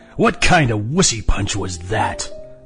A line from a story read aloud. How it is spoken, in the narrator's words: McNulty sneered